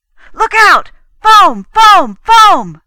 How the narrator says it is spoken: yelled

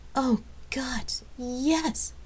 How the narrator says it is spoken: she cried out

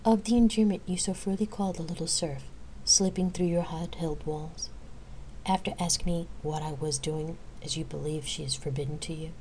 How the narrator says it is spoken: A heavy sigh escaped the warrior

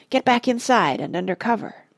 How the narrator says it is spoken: he whispered

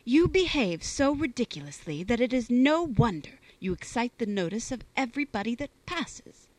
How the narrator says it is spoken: replied Fanny in an angry tone

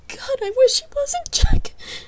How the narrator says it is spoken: sobbed

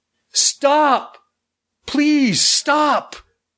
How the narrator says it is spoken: cried

